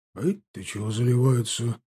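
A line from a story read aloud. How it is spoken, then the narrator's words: Displeased grumble. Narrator (Russian): буркнул он недовольно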